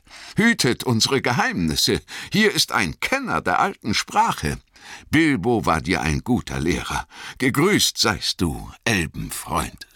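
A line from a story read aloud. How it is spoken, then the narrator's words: Laughing call. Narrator (German): rief Gildor lachend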